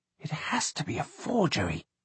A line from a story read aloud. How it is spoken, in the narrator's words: John whispered, to no one in particular